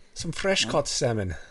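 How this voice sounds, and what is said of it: Put-on Irish-Scottish accent. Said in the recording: “you've been working on your accent ... I don't know what that was, but it wasn't American ... Some, like a Scottish mix in there”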